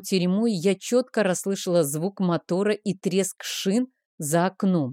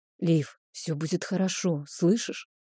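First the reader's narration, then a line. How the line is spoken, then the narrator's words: Muffled whisper. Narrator (Russian): шептал Рик мне в растрепанные волосы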